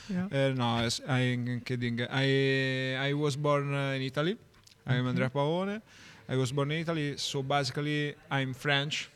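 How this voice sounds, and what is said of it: English with an Italian accent. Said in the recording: “your Italian accent ... With accent.”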